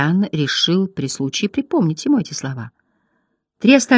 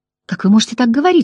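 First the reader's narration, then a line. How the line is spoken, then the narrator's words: Exclaiming. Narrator (Russian): воскликнула Агламар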